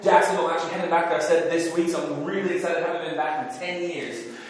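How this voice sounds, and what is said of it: Unusual American-sounding accent. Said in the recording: “I am in fact a fake American, so on paper I'm as British as the most British person you can know, but then my mouth is open and I sound weird”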